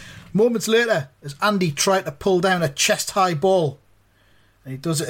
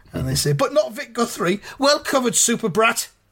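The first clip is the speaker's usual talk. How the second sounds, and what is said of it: Imitated commentary crowd voice. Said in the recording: “I'm doing the Lampard crowd voice there because that's the same vibe that it's got.”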